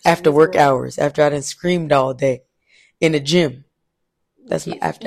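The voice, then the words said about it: Hoarse, deep, scratchy voice. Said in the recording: “My voice has been hoarse for like 2 months now... deep, sensual, scratchy voice... This is my after hours voice”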